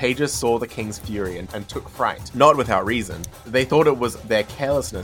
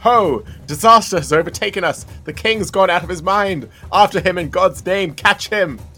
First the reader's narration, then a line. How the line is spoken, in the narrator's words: He was horror-struck and called out